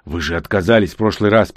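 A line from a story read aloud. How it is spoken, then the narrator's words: Breathless hoarse rasp. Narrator (Russian): прохрипел я, через минуту чувствуя, что теряю сознание от нехватки кислорода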